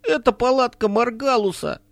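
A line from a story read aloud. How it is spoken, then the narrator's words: Trembling voice. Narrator (Russian): спросил Харл дрожащим голосом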